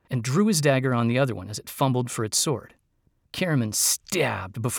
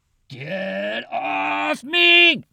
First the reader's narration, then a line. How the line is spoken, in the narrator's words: Flint roared from the bottom of the pot